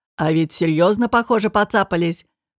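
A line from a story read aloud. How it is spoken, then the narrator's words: Deep bass voice. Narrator (Russian): пробасил Далбек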